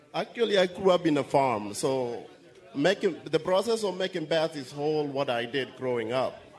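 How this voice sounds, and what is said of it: Kenyan accent. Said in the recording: “I love your accent. ... I'm from Kenya.”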